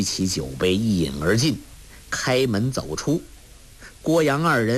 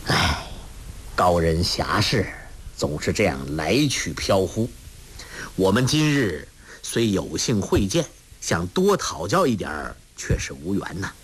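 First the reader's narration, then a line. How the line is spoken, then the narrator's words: Sighing. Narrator (Chinese): 郭啸天叹道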